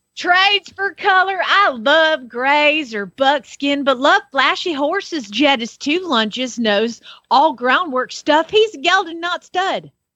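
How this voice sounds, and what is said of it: Put-on Southern American accent. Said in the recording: “Let's see if it makes more sense with an, a, a southern accent. ... Sounded prettier”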